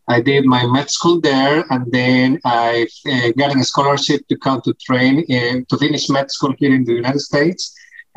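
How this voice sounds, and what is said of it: Colombian Spanish accent in English. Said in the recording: “as you may guess from my accent, I am not from America. I am born in Colombia, South America.”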